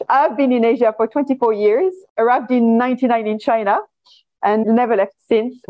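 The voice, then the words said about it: French accent. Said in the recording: “You have an amazing accent. ... So my accent is French.”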